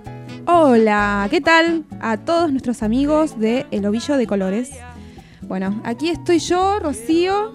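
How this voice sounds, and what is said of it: Polished radio announcer voice. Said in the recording (Spanish): “Te salió una linda voz de locutora.”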